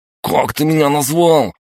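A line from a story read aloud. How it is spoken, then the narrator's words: Loud yell. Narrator (Russian): завопил тот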